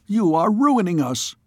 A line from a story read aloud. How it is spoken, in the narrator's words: cried